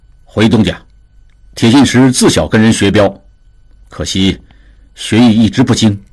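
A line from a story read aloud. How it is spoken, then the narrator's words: Low, deep voice. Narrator (Chinese): 铁信石声音低沉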